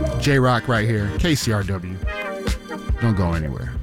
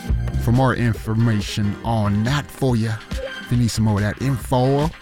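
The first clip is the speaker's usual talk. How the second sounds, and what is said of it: Put-on Southern accent. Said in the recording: “I don't know why I have a southern accent”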